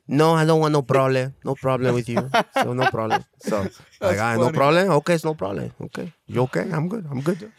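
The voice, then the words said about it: Imitates another person's voice. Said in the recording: “you're good at impersonations.”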